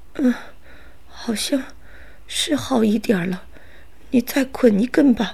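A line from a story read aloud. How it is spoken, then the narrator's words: Sighing. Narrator (Chinese): 赛博尔叹着气说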